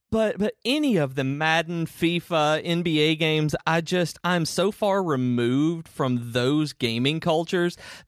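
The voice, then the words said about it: Speaker's own regional accent. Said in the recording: “I say sports in a really weird way. I realized my accent”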